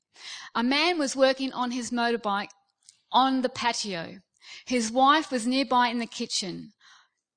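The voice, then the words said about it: Australian accent. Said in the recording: “Now, I'm Australian, okay? ... Maybe it might be my accent. But I'm trying to be British”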